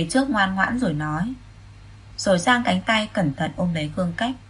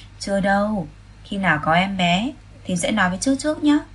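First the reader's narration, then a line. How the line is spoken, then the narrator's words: Smiling. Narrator (Vietnamese): Khương Cách mỉm cười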